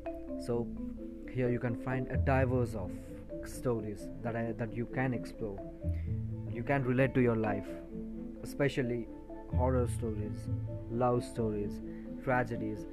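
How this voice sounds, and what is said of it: Indian English accent. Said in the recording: “I'm an Indian descent, so my accent will be probably Indian.”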